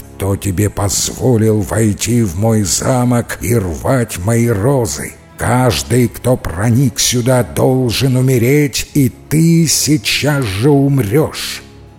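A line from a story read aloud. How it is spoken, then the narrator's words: Wolf growling in human voice. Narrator (Russian): огромный белый волк и зарычал человеческим голосом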